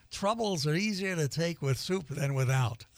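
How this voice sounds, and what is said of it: Put-on Yiddish accent. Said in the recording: “Did my best way to do the Yiddish accent.”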